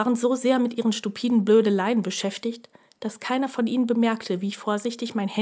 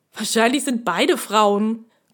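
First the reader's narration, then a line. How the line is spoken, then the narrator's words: Grunted. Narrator (German): grunzte einer der Kumpane nahe des Eingangs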